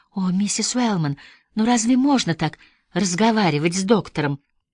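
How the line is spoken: Sighing, babbling nurse. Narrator (Russian): Сестра О'Брайен со вздохом пролепетала

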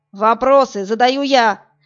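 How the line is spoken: Barked again. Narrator (Russian): Снова рявкнул Вадим

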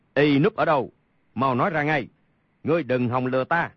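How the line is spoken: Angry shout. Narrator (Vietnamese): Đại dương tử quát

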